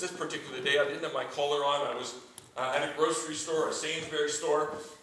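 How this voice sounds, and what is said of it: Canadian accent. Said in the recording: “my accent ... noticed my accent and asked if I was American, and I said, no, I'm a Canadian”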